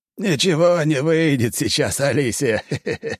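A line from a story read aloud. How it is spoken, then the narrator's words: Laughing old man. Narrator (Russian): посмеялся дед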